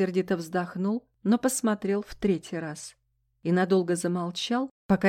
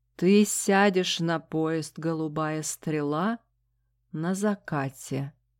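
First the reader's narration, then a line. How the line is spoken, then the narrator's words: Slow speech. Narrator (Russian): медленно проговорил он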